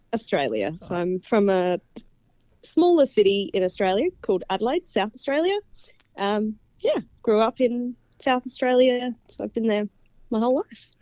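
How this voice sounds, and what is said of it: Australian accent. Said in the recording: “we detect an accent”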